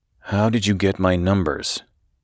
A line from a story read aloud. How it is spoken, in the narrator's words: he repeated in an even more somber voice